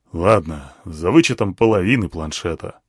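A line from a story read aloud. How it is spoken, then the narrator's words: Sighed. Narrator (Russian): вздохнул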